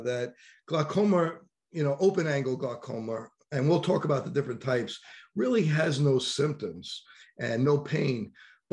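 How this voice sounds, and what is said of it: New York accent. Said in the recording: “excuse my new york accent”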